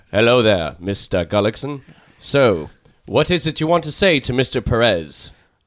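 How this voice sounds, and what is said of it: Put-on posh British accent. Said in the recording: “I have to talk with a British accent ... I gotta think more John Hurt, right. Anthony Hopkins.”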